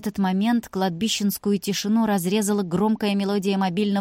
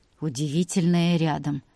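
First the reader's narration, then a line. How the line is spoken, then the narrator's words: Wry snort. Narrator (Russian): хмыкнул Илья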